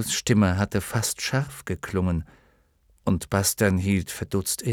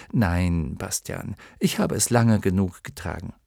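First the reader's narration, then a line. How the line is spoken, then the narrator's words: Gentle, apologetic. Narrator (German): Atreo lächelte entschuldigend und wiederholte sanft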